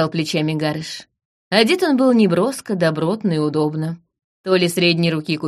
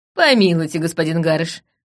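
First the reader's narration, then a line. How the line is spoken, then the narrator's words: Laughing. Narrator (Russian): рассмеялась я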